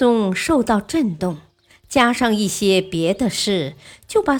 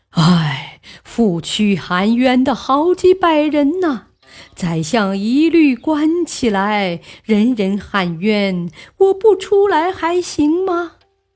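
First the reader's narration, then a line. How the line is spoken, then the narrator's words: Sighing resignedly. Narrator (Chinese): 汉魃摇头叹气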